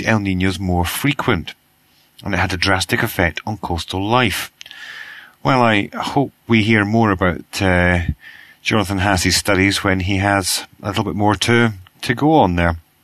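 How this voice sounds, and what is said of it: Croaky, hoarse voice. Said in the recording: “as you probably guessed from my croaky voice, I have been suffering from what we call in Britain man flu ... my voice is croaky”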